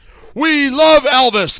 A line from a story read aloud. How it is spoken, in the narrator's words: cried